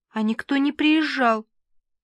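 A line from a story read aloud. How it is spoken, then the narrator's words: Sobbing. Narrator (Russian): всхлипнула Лара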